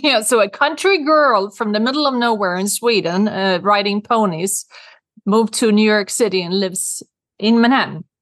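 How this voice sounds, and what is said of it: Swedish accent. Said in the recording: “I have a Swedish accent because I'm from Sweden.”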